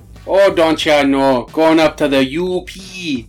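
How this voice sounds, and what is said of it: Put-on Midwest accent. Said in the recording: “a fucking Midwest accent ... That's more Wisconsin.”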